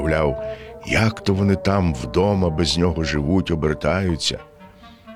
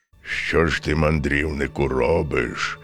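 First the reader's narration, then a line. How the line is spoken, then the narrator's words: Bear's menacing voice. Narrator (Ukrainian): промовив ведмідь грізним голосом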